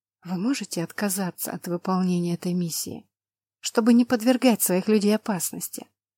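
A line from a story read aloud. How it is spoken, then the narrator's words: Whisper. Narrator (Russian): прошептала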